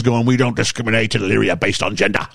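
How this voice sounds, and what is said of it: Vinnie Jones impression. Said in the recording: “That was a great impression.”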